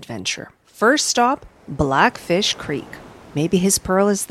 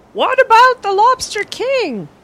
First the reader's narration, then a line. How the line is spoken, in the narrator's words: Penny cried